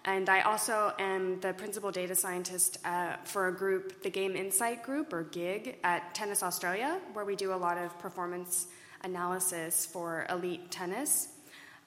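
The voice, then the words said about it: Non-Australian foreign accent. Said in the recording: “Not originally from there, as you can probably tell from my accent”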